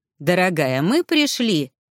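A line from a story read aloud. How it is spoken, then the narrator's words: Cheerful singsong, healer. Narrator (Russian): весело пропел целитель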